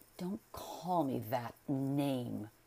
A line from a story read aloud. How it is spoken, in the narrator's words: growled McFarlane